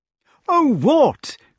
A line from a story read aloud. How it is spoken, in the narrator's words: cried Kay, forgetting for the moment that he was only addressing his squire and slipping back into the familiarity of their boyhood